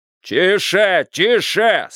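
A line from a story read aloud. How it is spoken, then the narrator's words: Loud drowning-out shout. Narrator (Russian): снова закричал Бидуэлл, стараясь заглушить страшное слово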